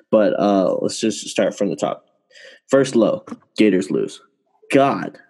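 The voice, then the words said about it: Sad-sounding voice. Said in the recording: “I sound sad”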